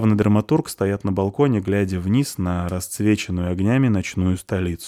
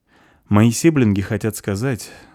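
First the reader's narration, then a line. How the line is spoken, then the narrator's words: Sighing. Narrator (Russian): вздохнул Эд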